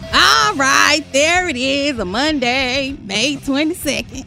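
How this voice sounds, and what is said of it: Imitates another person's voice. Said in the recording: “Was that a good impersonation? ... Is that your Bailey? ... Yeah, that's my Bailey.”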